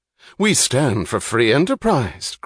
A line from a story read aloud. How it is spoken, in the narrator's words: cried Dr